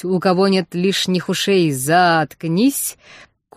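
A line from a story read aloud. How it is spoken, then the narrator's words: Thundering bell boom. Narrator (Russian): колоколу прогреметь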